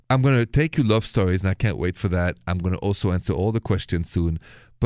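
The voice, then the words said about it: Parisian French accent. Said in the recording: “this accent of mine is French from Paris”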